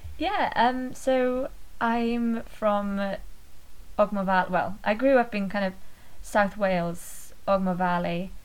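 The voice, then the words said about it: Welsh accent. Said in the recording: “you're Welsh, which is fairly apparent from the accent”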